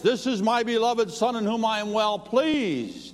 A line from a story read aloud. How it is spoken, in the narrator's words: God say out loud in a thunderous voice